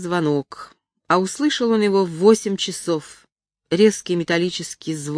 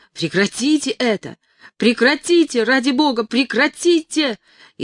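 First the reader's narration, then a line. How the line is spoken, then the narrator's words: Desperate wail. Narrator (Russian): Он и сам завопил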